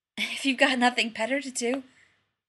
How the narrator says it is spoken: Rodney gasped

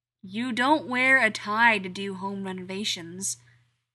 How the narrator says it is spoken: points out, loudly, because he can

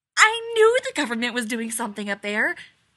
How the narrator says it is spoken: Abby exclaims

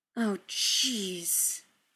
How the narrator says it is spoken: muttered

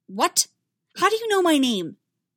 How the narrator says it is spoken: she snapped

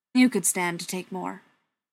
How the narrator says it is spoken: he said firmly

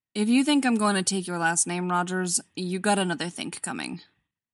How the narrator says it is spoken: says Bucky, as flatly as he can manage when he just wants to smile at Steve like a dope

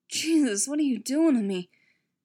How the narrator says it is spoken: Steve pleaded helplessly

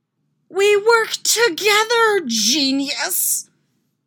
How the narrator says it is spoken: He screams back

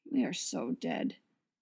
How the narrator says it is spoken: Steve mutters

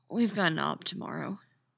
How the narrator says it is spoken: she said eventually, her voice raw from crying

